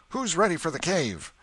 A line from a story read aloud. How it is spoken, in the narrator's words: somebody shouted